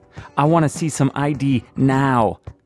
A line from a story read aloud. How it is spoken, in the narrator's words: the TV cop shouts